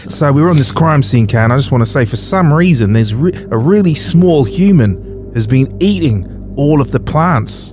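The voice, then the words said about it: Put-on, rather bad Australian accent. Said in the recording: “I've got a bit of an Australian accent. Some might say it's quite bad”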